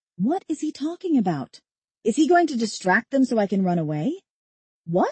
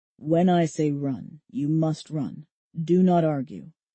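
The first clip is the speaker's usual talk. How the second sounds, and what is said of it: Low voice. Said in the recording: “says in a low voice”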